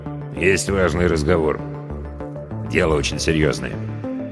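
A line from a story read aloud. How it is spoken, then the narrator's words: Quiet. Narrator (Russian): тихо добавил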